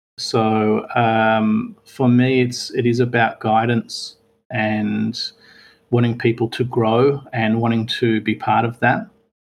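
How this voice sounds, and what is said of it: Speaks with a noticeable accent. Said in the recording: “I love hearing the accent of sadist as opposed to sadist. It's like, it sounds so sad.”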